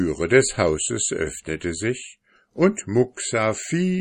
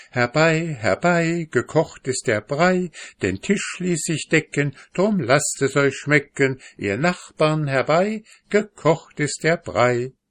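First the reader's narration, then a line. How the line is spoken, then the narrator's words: Old woman's singsong call. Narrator (German): eine alte Frau ... rief mit singender Stimme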